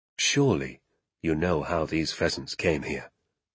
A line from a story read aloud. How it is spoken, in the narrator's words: he said softly